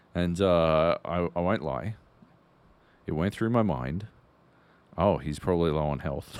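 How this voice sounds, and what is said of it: Usual voice. Nothing is said of it.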